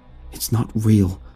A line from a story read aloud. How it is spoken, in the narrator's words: I stammered, trying desperately to rescue the situation